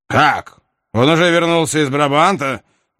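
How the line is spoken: Duke exclaiming. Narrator (Russian): воскликнул герцог

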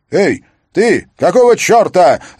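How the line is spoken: Unusual shout from calm man. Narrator (Russian): закричал Эдвард Мускин, командир отделения, человек уравновешенный, что редко повышал голос

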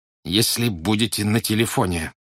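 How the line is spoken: Strained, barely audible. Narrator (Russian): еле выдавил он

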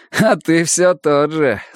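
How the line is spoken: Laughing. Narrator (Russian): засмеялся он

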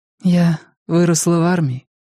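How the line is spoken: Sad smiling tone. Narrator (Russian): грустно улыбнулась Линь Юнь

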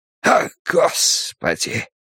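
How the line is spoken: Hoarse exclamation. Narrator (Russian): Сипло восклицает Селен

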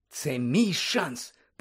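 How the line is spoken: Whispered. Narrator (Ukrainian): прошепотів Фред Візлі

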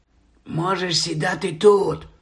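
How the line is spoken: Whisper. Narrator (Ukrainian): прошепотів Стен

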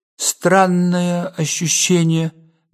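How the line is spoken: Slow speech. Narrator (Russian): медленно произнес он

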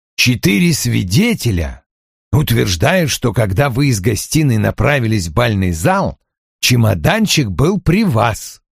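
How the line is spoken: Muttering. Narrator (Russian): пробурчал Вульф

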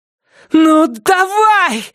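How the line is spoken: Shouting. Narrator (Russian): закричала она

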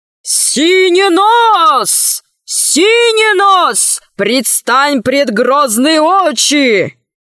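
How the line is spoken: Guard shouting. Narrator (Russian): один из стражников закричал

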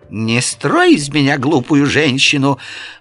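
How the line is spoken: Offended shrill shriek. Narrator (Russian): взвизгнула мгновенно оскорбившаяся домоуправительница

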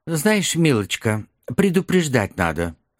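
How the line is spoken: Dry remark. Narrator (Russian): сухо заметил ее сосед

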